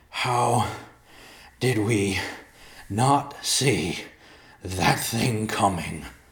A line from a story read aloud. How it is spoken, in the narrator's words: Riverpaw gasped in between deep breaths